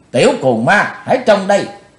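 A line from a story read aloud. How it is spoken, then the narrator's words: Shouted. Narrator (Vietnamese): Quát ... Bạch Phát Ma Cơ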